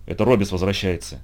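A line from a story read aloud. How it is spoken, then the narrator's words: Quiet reply. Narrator (Russian): тихо отозвался Инт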